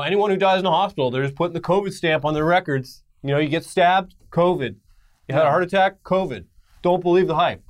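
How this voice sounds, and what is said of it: Mocking impression of a foolish person. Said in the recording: “I'm doing an impression of an idiot... That's an impression of someone.”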